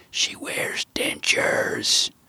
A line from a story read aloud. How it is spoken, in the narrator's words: Gramps, way too excited, whispered in a celebratory manner